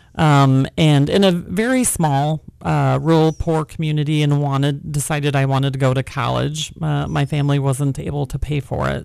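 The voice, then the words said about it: Rural Wisconsin accent. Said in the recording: “you can tell by my accent, I am not a native Californian. I actually grew up in rural Wisconsin”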